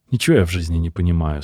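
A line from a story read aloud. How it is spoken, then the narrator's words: Plain. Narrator (Russian): сказал приятель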